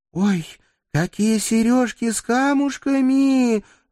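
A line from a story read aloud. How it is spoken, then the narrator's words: Ecstatic squeal. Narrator (Russian): восторженно взвизгнув, Рита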